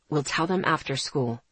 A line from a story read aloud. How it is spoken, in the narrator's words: he said calmly